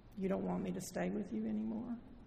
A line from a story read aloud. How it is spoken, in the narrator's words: asked quietly